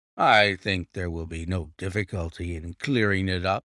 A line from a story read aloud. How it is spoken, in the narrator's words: said Lestrade grimly